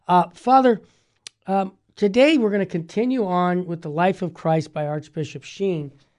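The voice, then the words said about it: Low-energy voice with a cold. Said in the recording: “my energy level's a little down. ... I've got a bad cold”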